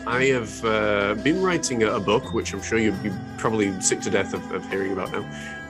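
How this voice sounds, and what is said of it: Posh, intellectual-sounding narrator voice. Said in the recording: “what's going on with my voice ... This is my narrator's voice. It's actually toned down a little bit now. But what I found was it was quite posh, and it sounded far more intellectual than my own”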